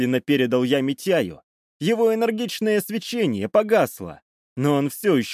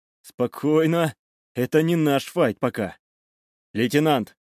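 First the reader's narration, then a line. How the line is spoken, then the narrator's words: Even, calm voice. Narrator (Russian): сказал я ровным, спокойным голосом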